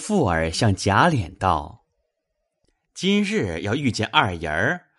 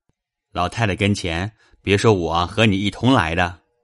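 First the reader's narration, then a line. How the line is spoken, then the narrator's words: Smiling. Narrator (Chinese): 贾琏含笑点头道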